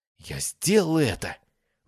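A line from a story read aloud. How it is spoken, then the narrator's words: Breathed out. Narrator (Russian): выдохнула Кас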